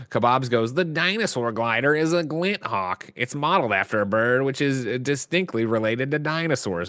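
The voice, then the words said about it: Put-on nerd voice. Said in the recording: “nerd voice that you're putting on just for that ... Where have you been hiding this nerd voice?”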